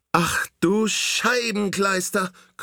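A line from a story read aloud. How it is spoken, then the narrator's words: Shrieking. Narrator (German): kreischt Doro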